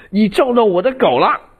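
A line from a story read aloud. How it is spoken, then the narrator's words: Shrieking. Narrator (Chinese): 我从车里跳出来尖叫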